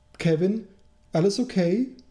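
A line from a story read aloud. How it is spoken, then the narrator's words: Mother calling from below. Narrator (German): rief seine Mom von unten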